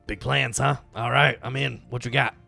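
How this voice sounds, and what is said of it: Rough, cold-sounding character voice. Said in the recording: “do you have a cold? ... I sound a little different ... how'd you do this voice the whole time? This is rough on the voice.”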